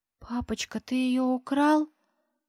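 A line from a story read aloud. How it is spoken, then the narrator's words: Trembling voice. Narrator (Russian): спрашивает дрожащим голосом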